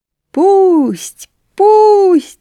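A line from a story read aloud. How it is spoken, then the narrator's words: Squeaking, clucking, crowing chorus. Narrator (Russian): запищали летучие мыши, закудахтали куры, закричали петухи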